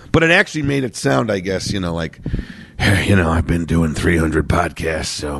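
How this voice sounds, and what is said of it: Slightly nasal, slightly hoarse voice. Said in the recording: “voice is a little nasal, but a little stronger and a little less hoarse than it was last week ... my voice sounds a little nasal and a little different now ... I had a horrible sore throat”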